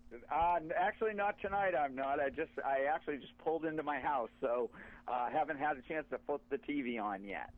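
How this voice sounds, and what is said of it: Slight New England accent. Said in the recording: “I'm guessing you're located in the New England area. I can tell you have a little accent.”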